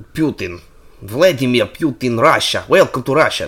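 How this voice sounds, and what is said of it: Put-on Russian accent. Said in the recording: “Which one's Russian?”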